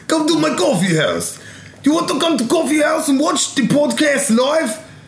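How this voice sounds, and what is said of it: Put-on Russian-Australian accent. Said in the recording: “Russian voice ... Oh, wow. Australian, Russian.”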